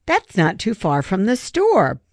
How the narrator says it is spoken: Ben exclaimed breathlessly

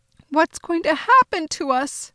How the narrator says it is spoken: Mama cried

